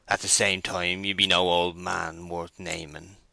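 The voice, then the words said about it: Querulous old man's voice. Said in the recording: “interposed the maltster in a querulous voice”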